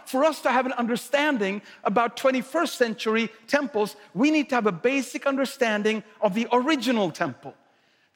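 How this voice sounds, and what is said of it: Swedish accent. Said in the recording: “Swedish accent”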